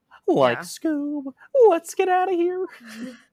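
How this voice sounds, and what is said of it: Impression of Shaggy. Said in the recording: “Do you want to hear my Shaggy ... It's pretty good, right?”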